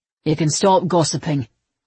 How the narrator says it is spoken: Levi said flatly

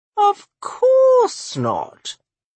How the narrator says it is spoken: Olenka sighed dramatically

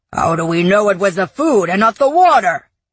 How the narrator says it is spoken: yelled another

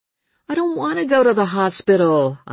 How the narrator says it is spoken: I whined

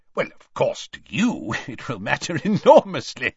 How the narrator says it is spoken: said Scrymgeour with a laugh

